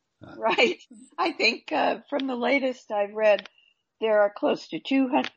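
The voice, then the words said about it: Slightly hoarse, froggy voice. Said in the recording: “I've got a little bit of a frog in my throat.”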